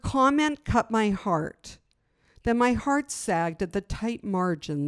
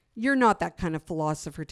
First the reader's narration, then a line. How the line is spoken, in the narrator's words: Tanis said